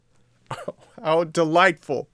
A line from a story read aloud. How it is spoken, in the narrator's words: shouted Pinocchio, jumping for joy